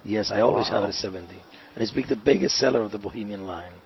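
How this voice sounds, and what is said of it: Slight Dominican accent with New York tinge. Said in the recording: “you have a little bit of that Dominican accent, but there's something else in your voice. There's some other accent. It almost sounds New York.”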